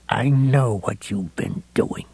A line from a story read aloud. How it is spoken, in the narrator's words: he whispered to Heavyset